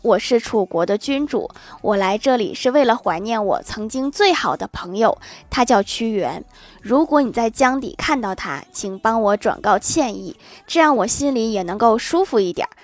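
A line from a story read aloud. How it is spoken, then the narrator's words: Long sigh. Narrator (Chinese): 楚怀王长叹一声说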